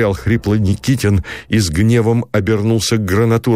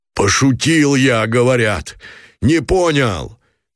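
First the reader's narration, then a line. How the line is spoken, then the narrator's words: Choked shout. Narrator (Russian): крикнул Гранатуров задушенно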